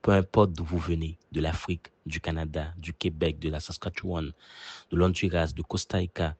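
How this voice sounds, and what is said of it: Haitian French accent. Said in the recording (French): “la musicalité d'Haïti, tout en s'enrichissant des territoires francophones que j'ai découverts. Quand on m'entend parler, on entend un peu de mon pays d'origine”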